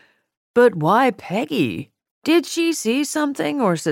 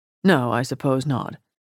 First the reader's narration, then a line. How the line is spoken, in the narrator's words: Mortimer mumbled, abashed at Kitty's response